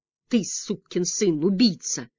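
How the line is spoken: Through gritted teeth. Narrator (Russian): сквозь зубы сказал я

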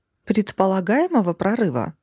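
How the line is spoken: Calm. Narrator (Russian): спокойно отреагировала

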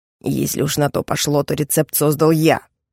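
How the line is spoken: Spiteful objection. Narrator (Russian): вредным тоном возразил Кроу

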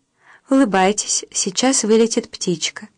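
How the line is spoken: Kind voice. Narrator (Russian): добрым голосом сказал Левинсон

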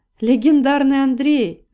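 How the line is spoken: Laughing. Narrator (Russian): рассмеялась Катя

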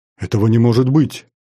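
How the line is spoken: Matriarch exclaiming. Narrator (Russian): воскликнула матриарх

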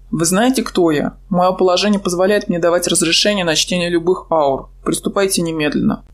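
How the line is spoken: Dark-haired man growling. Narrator (Russian): рыкнул на него брюнет

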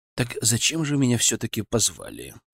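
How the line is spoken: Whispered question. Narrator (Russian): шепотом спросил я у Муромцевой

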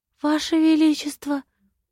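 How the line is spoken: Whisper. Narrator (Russian): прошептала она

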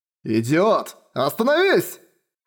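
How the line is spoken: Shout. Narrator (Russian): крикнул я

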